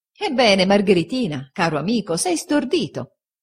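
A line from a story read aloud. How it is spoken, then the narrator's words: Laughing exclamation. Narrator (Italian): esclamò Steerforth ridendo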